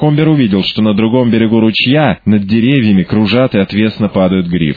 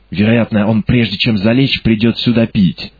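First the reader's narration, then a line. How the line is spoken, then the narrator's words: Whispered. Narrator (Russian): прошептал Уилсон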